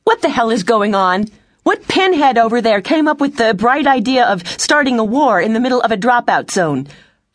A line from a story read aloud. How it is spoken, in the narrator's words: Elise yelled